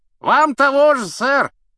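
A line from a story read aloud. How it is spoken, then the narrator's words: Shouted. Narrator (Russian): крикнул рыцарь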